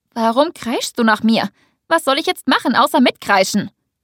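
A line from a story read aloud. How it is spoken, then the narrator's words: Angry question. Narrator (German): frage ich wütend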